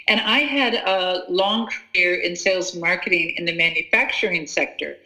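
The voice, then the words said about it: American accent. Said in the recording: “You can hear from my accent, I'm from the U.S., our family's American, but we've lived in Australia for 20 years.”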